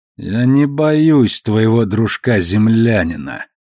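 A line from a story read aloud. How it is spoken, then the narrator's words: Grating, through clenched teeth. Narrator (Russian): процедил Марко, и Наоми отметила скрежет в его голосе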